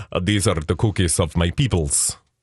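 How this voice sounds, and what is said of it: Poor put-on Russian accent. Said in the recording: “That's the Russian accent, which isn't very good either.”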